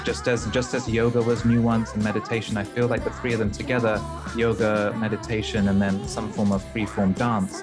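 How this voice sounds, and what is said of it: Soothing British-accented male voice. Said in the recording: “It's not just the British accent. Your voice is very soothing”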